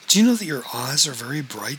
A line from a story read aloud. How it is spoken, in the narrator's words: said April